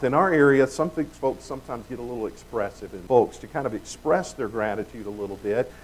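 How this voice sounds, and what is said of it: Southern US accent. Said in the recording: “I come from the South. I know you wouldn't have known that by my accent.”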